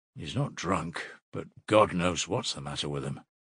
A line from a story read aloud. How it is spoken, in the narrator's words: muttered the workman